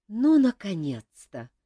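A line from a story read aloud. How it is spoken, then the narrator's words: Exhausted exhale. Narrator (Russian): измученно выдохнула Саэта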